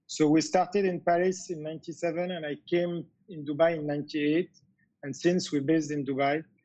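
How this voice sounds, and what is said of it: French-accented English. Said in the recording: “I think people can get it with the French accent”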